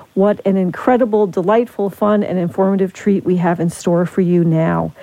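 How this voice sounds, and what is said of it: Smiling, cheerful voice. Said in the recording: “I'm smiling. I'm sure you can hear it in my voice.”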